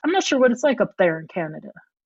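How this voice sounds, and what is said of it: Slight put-on Southern accent. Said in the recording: “I just put on a little southern accent... that's not a Canadian accent.”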